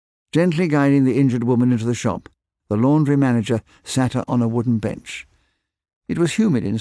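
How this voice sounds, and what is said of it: Usual voice. Nothing is said of it.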